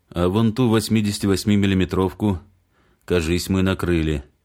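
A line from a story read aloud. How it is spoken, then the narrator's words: Plain. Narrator (Russian): сказал он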